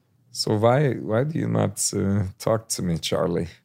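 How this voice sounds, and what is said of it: Vague European accent. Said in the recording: “what vague European accent is that?”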